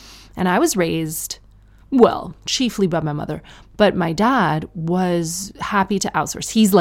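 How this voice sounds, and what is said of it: Usual voice. Nothing is said of it.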